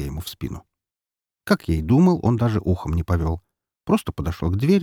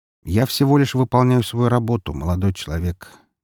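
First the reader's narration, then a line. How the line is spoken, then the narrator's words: Flat expressionless voice. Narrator (Russian): ничего не выражающим голосом проговорил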